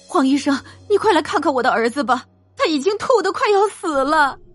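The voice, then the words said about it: Trembling voice. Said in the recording (Chinese): “用颤抖的声音说道”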